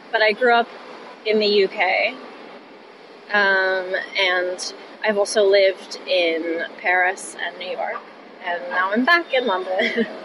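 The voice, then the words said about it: American accent. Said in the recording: “that's why I have an American accent”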